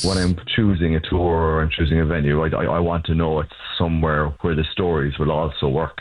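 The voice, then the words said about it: Irish Cork accent. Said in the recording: “Originally from Cork, Ireland ... you probably heard the accent.”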